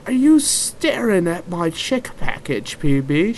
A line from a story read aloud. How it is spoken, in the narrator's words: She laughed warmly